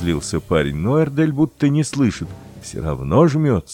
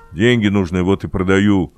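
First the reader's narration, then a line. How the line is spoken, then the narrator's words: Angry. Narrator (Russian): сердито объяснил парень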